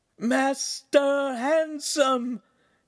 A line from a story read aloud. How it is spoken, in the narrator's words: Pan shouted so hard it hurt Hansum's ear